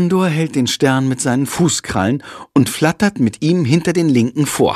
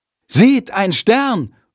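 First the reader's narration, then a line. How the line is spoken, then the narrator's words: Loud call. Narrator (German): ruft Jendrik laut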